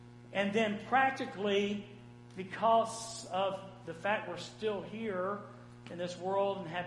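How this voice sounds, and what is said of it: Usual voice. Nothing is said of it.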